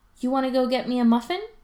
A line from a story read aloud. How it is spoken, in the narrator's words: Ryan asks brightly